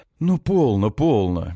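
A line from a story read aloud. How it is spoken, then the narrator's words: Soft. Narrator (Russian): мягко говорит Лазареску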